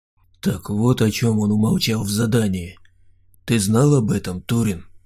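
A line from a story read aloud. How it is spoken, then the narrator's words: Quiet question. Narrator (Russian): тихо спросил Саня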